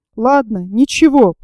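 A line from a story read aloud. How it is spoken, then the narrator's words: Muttering. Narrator (Russian): пробормотал он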